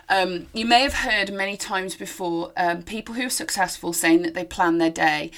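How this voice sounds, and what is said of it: Slightly hoarse, fading voice. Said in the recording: “I'm losing my voice a little, you can hear.”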